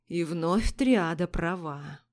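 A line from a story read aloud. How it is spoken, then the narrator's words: Thoughtful. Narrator (Russian): задумчиво произнес Следер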